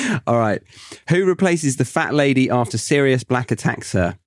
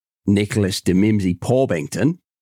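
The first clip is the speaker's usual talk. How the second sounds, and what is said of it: Put-on Australian accent. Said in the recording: “let me do this in an Aussie accent. ... That is shocking.”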